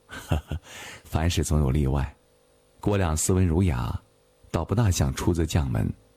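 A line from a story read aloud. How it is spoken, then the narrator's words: Laughing. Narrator (Chinese): 岳珂笑道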